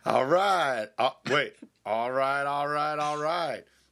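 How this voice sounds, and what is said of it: Imitates another person's voice. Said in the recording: “my Matthew McConaughey impersonation ... That's very good ... I thought I was talking to Matthew McConaughey”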